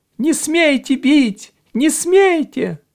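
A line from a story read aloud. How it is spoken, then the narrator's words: Thin shrill squeal. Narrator (Russian): Кто-то совсем близко тоненько взвизгнул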